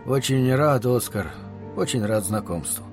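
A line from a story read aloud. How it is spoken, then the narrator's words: Soft rustling voice. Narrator (Russian): тихо прошелестел его голос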